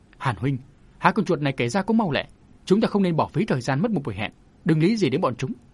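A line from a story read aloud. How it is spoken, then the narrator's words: Startled, raised voice. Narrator (Vietnamese): Lưu Vân kiếm khách cả kinh, cất cao giọng nói với Hàn Đương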